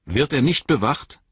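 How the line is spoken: Stern question. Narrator (German): fragte Frodo streng

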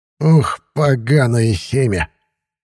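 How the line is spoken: Grumbling old man. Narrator (Russian): ворчал лесной старик

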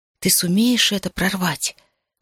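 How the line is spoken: Whispered. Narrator (Russian): шепнула я Решае

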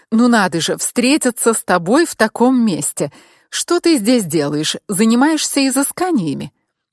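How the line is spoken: Nervous laughter. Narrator (Russian): Я нервно засмеялась

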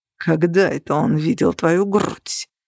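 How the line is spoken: Hissing. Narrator (Russian): прошипел Грегор

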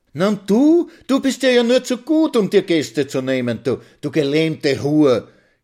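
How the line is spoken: Shrill melodious little voice. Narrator (German): kreischt Mitzi mit ihrem melodiösen Stimmchen

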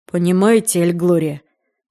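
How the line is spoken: Sighing. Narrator (Russian): вздохнул Пит

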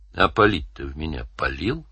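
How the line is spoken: Gentle question. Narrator (Russian): ласково спросил Данил

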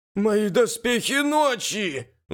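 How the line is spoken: Warrior's howl. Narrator (Russian): взвыл воин

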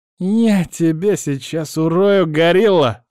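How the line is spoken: Hissed threat. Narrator (Russian): шипит Уголек

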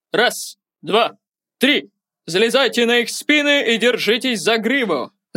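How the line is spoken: Teacher's booming command. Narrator (Russian): Зычным голосом скомандовал преподаватель

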